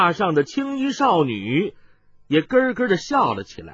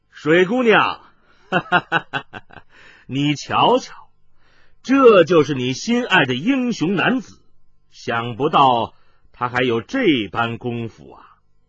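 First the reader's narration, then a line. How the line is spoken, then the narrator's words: Laughing, from outside the door. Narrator (Chinese): 突听门外有人笑道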